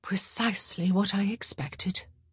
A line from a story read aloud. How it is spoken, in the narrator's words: Daphne murmured